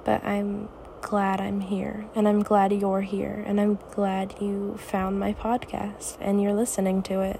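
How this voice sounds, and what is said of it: Raspy tired voice. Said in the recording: “my voice sounds kind of raspy”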